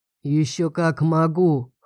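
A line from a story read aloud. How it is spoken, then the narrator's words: Chuckling. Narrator (Russian): хохотнул он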